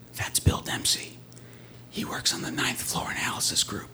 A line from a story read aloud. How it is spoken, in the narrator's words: her assistant whispers back